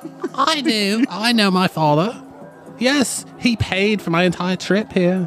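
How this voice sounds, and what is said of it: Posh, wealthy-sounding put-on accent. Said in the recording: “I love your accent. It sounds like money.”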